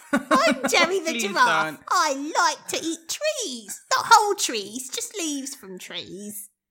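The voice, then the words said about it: Cartoon giraffe character voice. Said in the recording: “I'll do cartoon voices ... cartoon voice ... That's really good. That's fantastic.”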